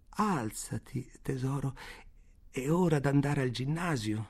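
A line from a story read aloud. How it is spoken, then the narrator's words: Sorrowful. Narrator (Italian): dice in tono addolorato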